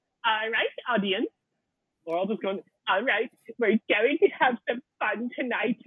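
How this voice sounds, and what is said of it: Imitates another person's voice. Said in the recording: “my Bjork impression ... That's pretty good.”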